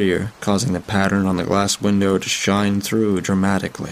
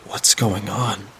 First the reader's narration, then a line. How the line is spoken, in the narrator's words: I muttered under my breath